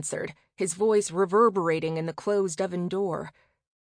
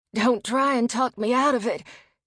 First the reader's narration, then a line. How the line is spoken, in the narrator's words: he panted breathlessly